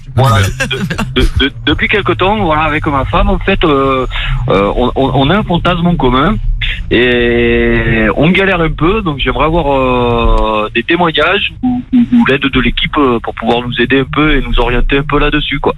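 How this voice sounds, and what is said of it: Southern French accent. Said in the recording (French): “t'as l'accent du sud”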